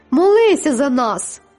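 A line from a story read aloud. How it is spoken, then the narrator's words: Shrieking. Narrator (Ukrainian): Дехто верещав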